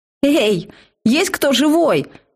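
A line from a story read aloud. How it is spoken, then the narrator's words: Impatient yelling. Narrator (Russian): заорала я, потеряв терпение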